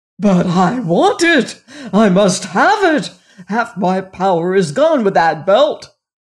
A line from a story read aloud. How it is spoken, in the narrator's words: roared the king